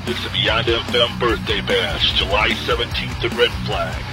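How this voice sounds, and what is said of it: Sexy radio announcer voice. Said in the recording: “How about that guy's voice that was just on? ... Sexy. ... You got that sexy voice.”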